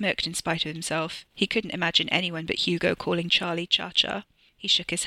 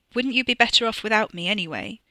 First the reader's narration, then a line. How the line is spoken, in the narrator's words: Hugo spluttered out a laugh